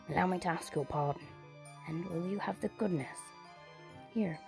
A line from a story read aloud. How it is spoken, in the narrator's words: Scrooge whispered in his ear